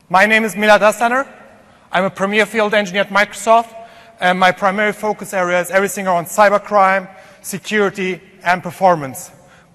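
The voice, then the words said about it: German-accented English. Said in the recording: “originally from Germany, and that's probably the reason for my bad English accent”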